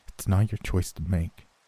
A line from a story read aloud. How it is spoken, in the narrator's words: he replied, his voice shaky